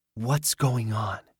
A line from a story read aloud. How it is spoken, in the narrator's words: he whispered